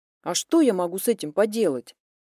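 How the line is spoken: Irritated question. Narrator (Russian): спросила она, раздраженно

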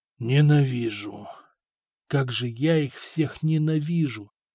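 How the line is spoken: Whispering. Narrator (Russian): шептал Арат

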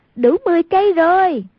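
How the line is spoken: Exclaiming. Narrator (Vietnamese): Hoàng Dung kêu lên

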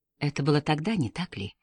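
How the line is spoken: Gentle question. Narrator (Russian): мягко спросил Пуаро

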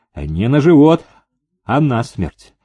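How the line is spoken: Calm reply. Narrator (Russian): спокойно ответил Курлов

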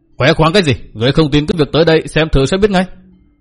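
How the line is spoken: Loud angry shout. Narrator (Vietnamese): Hoàng Diện Phong Cái trợn mắt quát lớn

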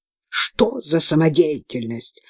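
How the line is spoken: Barked. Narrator (Russian): рявкнула она

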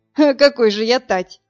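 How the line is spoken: Laughing. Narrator (Russian): рассмеялся Вадим

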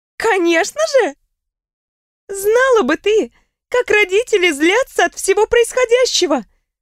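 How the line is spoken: Laughing out loud. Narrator (Russian): В голос рассмеялась Риона

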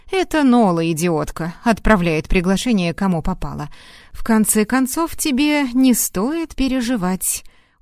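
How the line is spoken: Laughing. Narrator (Russian): он рассмеялся

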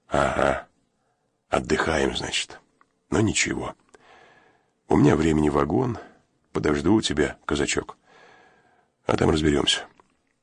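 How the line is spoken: Quiet speech. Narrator (Russian): Турецкий тихо сказал

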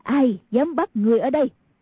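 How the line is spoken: Angry. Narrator (Vietnamese): Người đàn bà kia tức giận nói

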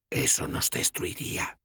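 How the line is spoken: Whispered in the ear. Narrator (Spanish): me susurró una voz al oído

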